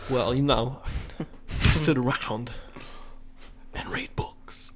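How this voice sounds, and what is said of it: Forced Christopher Walken impression. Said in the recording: “do a better Christopher Walken impression ... It's not as good because it's forced.”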